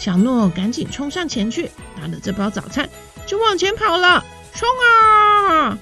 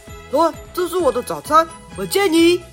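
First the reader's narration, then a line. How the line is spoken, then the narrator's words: Boy calling out. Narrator (Chinese): 一位小男孩，对小诺喊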